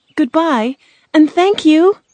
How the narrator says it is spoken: Dorothy cried

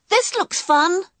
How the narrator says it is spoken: He shouted

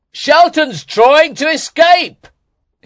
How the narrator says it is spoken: he shouted

